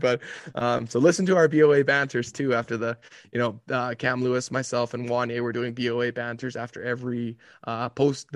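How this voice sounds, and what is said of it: Voice sounds bad, worn out. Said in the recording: “you think my voice was bad now? You should have heard it at 10 a.m.”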